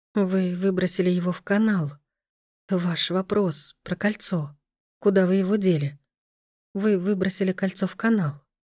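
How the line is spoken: Whisper. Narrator (Russian): прошептала она

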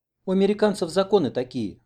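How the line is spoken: Sighing. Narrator (Russian): вздохнула Оксана

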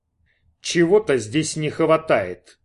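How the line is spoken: Loud announcement. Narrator (Russian): громко объявил он

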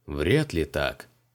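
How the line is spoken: Regretful sigh. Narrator (Russian): сожалеюще вздохнул Криол

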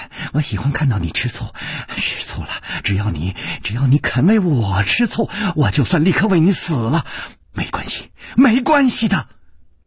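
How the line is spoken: Soft, tender voice. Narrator (Chinese): 柔声说

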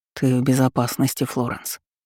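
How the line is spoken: Whisper. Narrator (Russian): прошептал Бенедикт

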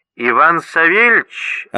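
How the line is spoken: Unpleasant nasal voice. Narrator (Russian): осведомилась трубка при противном гнусавым голосом

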